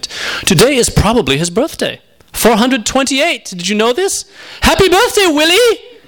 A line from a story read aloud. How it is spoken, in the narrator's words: shouted, quite pleased with himself